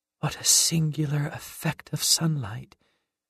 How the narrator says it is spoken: whispered

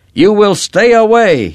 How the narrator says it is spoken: he shouted

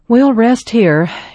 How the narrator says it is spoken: said with a sigh

